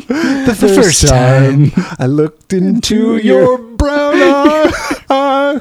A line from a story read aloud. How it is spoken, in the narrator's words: I cried